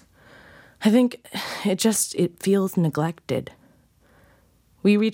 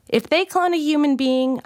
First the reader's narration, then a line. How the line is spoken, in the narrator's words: I shouted back